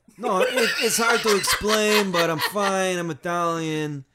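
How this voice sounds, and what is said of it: Smooth old Italian gangster accent. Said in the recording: “You sound like a Canadian really old Italian gangster from a movie. ... this one's smooth ... It's a little more laid back.”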